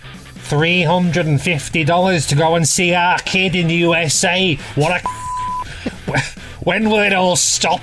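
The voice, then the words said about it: Reading aloud in slight Scouse accent. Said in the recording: “with a slightly wandering into Scouse accent”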